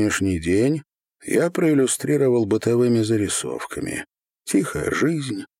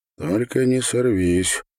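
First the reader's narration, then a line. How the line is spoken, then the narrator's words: Undertone warning. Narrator (Russian): вполголоса предупредил меня первый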